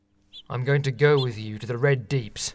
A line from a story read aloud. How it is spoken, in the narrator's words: said sternly